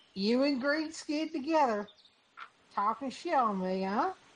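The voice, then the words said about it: Put-on cowboy accent. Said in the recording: “I've done a cowboy accent. ... We stumbled upon a good accent.”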